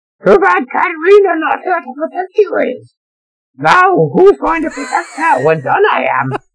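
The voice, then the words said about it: Yoda character voice, inverted syntax. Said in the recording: “I like the Yoda idea.”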